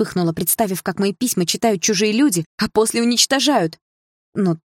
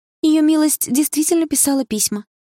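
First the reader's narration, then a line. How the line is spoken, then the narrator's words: Timid. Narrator (Russian): робко произнесла Лея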